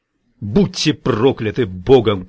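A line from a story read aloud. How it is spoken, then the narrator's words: Shouting. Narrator (Russian): кричал он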